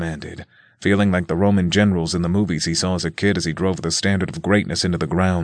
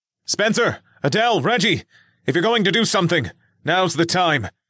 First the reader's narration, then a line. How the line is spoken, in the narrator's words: Nick called out